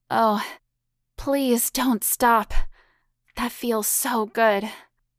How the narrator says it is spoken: Hannah moaned out loud

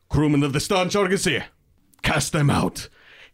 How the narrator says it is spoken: I shout to the other Githyanki

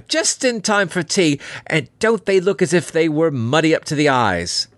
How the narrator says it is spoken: she cried

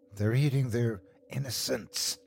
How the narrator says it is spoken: she whispered

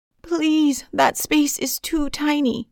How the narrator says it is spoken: cried

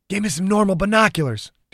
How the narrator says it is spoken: Dew snapped

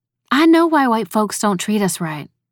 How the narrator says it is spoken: Shayna said

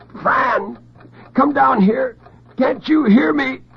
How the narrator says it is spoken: The gag absorbed his shrieks like a sponge

